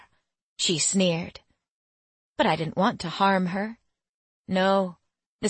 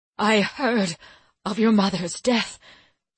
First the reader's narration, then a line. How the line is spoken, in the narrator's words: she said, sounding choked